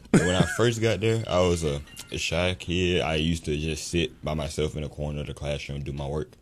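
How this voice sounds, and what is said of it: Deep radio voice. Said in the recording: “that's a radio voice ... His voice deeper than mine”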